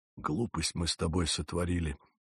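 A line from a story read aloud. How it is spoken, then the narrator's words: Whisper. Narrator (Russian): шепот второго старшего матроса, мистера Линклеттера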